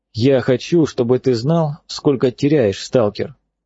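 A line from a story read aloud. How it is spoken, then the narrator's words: Calm. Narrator (Russian): спокойно говорит пророк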